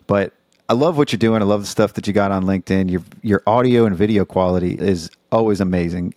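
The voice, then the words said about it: Suave midnight radio DJ voice. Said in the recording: “you've got just such that like midnight radio DJ, like suave voice ... I've been working on this radio voice for over 200 episodes”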